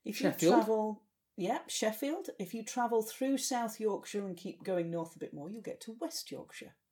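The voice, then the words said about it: Broad Yorkshire accent. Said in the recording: “broad Yorkshire accent”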